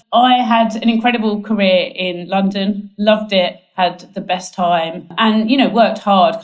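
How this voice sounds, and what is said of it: English Essex accent. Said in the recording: “as you can tell by my accent, I am not Australian. I'm actually from Essex in the UK.”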